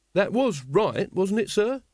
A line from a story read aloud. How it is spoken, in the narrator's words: said Carrot anxiously